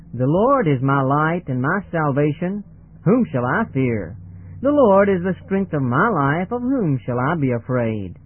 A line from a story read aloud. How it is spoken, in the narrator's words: in a clear voice she read aloud